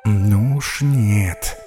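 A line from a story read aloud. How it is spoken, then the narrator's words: Quiet, to himself. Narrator (Russian): тихонько сказал себе Саран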